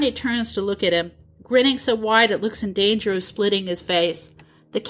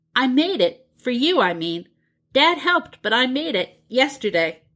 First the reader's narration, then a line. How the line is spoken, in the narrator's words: John blurts out